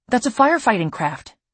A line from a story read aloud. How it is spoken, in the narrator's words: says excitedly